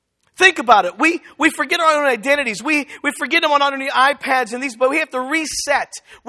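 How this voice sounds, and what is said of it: Pittsburgh accent, sounds New York-like. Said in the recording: “I'm from Pittsburgh, and I know I talk a little bit like New York ... you steal that Eastern accent.”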